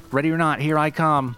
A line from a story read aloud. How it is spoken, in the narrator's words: a man in his 40s shouts out